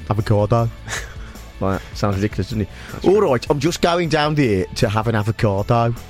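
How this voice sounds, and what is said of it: Put-on Midlands English accent. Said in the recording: “if you say it in the Midlands accent, it sounds stupid ... How does it sound?”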